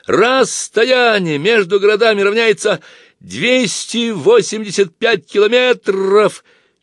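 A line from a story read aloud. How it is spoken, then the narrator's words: Shouting. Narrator (Russian): я в это время кричал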